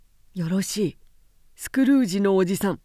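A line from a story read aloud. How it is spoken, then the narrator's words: Shouted by a group. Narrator (Japanese): と彼らは叫んだ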